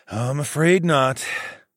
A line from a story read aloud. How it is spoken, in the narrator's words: I sighed